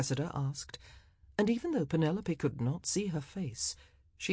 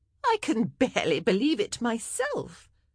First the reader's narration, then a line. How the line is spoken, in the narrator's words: Cressida said with a harsh laugh